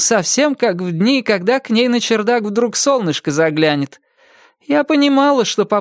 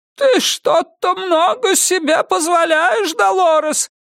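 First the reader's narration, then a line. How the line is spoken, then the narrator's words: Cracked, trembling shout. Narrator (Russian): кричит она надтреснутым, дрожащим своим голосом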